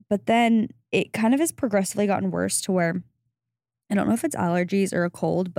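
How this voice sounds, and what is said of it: Hoarse, partly lost voice. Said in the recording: “sorry about my voice again ... I think I lost my voice a little bit ... the voice is a bit gone”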